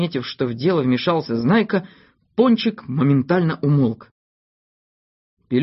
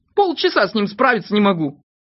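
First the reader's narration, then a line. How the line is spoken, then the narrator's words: Stern. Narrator (Russian): Знайка строго сказал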